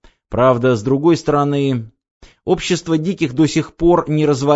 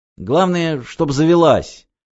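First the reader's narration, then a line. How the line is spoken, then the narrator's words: Grumbling. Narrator (Russian): проворчала Ева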